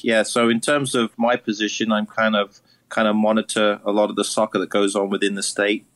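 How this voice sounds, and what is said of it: Slight British accent. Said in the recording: “he also has a bit of a British accent”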